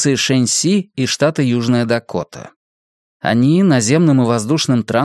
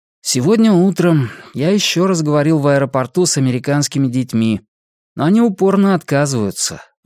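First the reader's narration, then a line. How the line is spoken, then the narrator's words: Sighing. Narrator (Russian): вздохнув, сказал очкарику Сяомен Хуахуа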